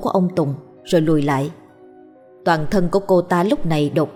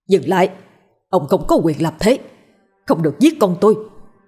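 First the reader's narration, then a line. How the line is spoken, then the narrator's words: Shouting. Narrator (Vietnamese): Họ hét lên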